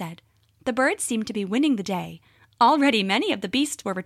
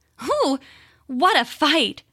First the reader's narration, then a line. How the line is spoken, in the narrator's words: said, panting as though she were very tired